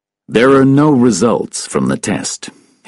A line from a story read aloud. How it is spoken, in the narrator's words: said coldly